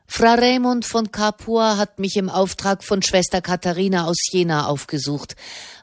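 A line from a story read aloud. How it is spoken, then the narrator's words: Plain. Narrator (German): antwortete Soderini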